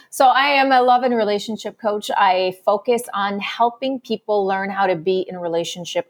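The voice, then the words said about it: Slight squeaky French accent. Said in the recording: “I am French, so sometimes you might hear a little bit of a squeaky accent”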